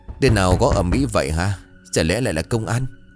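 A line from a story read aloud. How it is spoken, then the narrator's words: Frightened. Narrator (Vietnamese): Ông Đài sợ hãi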